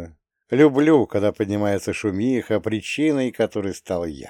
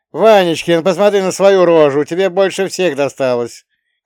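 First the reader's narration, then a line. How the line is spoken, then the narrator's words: Boy shouting nearby. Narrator (Russian): крикнул пацан с соседней кровати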